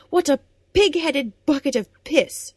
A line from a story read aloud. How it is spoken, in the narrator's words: She yelled